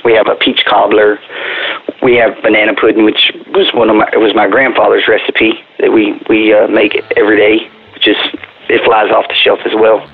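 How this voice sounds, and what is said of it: South Texas twang. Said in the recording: “my South Texas twang”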